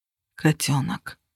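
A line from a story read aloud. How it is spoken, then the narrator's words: Whispering. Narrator (Russian): прошептал он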